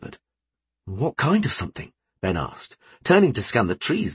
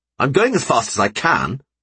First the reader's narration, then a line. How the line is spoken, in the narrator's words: Josh snapped